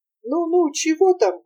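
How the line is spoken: Gentle grumble. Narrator (Russian): буркнул доктор ласковым голосом

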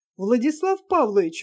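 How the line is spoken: Exclamation. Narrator (Russian): воскликнул Ставцев

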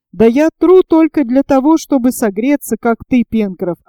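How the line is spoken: Laughing reply. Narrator (Russian): ответил, смеясь Герберт

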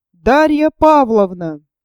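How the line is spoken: Loud exclamation. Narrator (Russian): Степан Трофимович громко для чего-то возгласил

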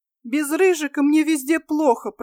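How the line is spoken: Through tears. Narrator (Russian): проговорила сквозь слезы Милена

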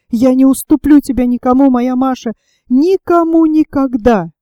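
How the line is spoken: Tearful desperate exclamation. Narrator (Russian): он с отчаянием воскликнул

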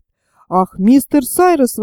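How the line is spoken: Exclamation. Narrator (Russian): воскликнул Герберт

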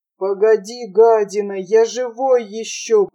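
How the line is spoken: Wheezing, badly wounded. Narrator (Russian): прохрипел тяжко раненый

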